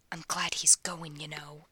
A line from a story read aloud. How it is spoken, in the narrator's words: he says to Ronnie, a vicious whisper